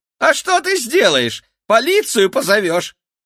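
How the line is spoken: Shrill laughing. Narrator (Russian): Феликс визгливо рассмеялся

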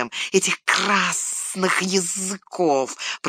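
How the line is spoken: Hiss. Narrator (Russian): прошипел Горлум

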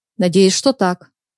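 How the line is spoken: Plain. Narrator (Russian): ответил он

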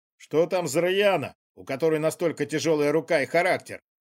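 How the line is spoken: Smirking gendarme. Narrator (Russian): Хмыкнул кто-то из жандармов

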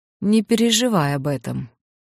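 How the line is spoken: Dry. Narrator (Russian): сухо ответил великий кудесник

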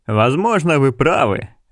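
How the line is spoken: Laughing. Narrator (Russian): рассмеялся Ральф Аллен

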